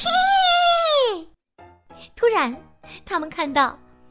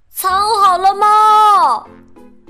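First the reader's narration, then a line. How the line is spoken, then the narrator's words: Shouting together. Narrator (Chinese): 小鸡球球和小鸭嘎嘎、呱呱一起喊了起来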